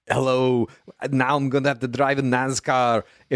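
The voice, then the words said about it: Arnold Schwarzenegger impression. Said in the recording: “doing an Arnold Schwarzenegger impersonation ... every single time you do Arnold Schwarzenegger”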